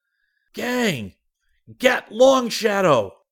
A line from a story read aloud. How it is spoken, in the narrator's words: Rick yelled